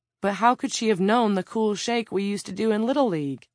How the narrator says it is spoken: with a sigh

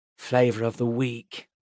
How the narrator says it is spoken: Enoch grumbled

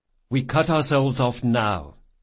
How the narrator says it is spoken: said Jean

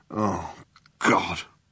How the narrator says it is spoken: muttered Zaphod

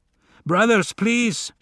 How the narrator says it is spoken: shouted a brave Father Balto

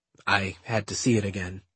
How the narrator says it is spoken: he murmured

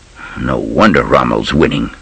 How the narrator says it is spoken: Van Damme muttered

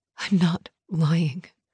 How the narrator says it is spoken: Mom whispered

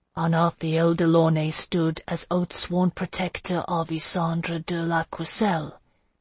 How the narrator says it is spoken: Jocelyn asked quietly

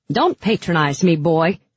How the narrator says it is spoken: Her voice cracked out like a whip

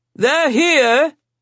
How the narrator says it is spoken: Sebastian bellowed

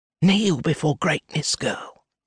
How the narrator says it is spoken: Belinda hisses

